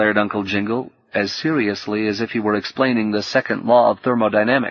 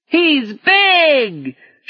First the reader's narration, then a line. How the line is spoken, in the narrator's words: shouted the Jingle Jungle crew, seemingly unfazed